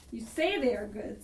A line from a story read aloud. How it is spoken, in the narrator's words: said the bear with a sneer